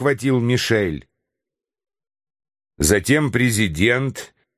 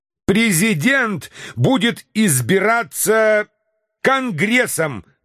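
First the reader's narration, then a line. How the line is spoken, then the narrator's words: Yelled. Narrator (Russian): завопил Мишель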